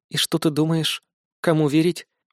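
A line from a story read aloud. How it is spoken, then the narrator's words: Hoarse voice. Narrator (Russian): с хрипотцой в голосе уточнила Юлия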